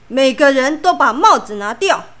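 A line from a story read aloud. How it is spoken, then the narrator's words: Angry, loud. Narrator (Chinese): 校长很生气的大声说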